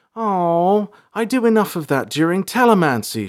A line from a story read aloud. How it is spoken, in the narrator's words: cried